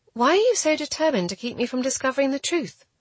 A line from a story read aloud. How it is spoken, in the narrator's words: I exclaimed